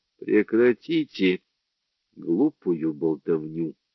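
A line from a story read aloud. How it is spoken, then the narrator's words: Rude, curt. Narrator (Russian): грубо обрезал его Брандт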